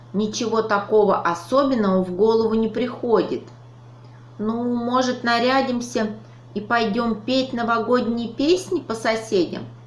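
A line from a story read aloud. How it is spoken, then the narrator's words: Uncertain suggestion. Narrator (Russian): неуверенно предложил ежик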